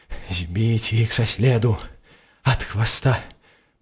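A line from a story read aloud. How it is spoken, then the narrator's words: Muttering. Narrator (Belarusian): мармытаў ён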